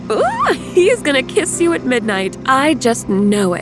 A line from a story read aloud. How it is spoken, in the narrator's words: said with a squeal